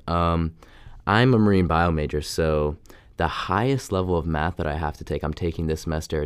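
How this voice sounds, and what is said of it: Slightly weird, sick-sounding voice. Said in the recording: “sorry if I sound weird. I'm a little sick today, so I probably sound a little weird.”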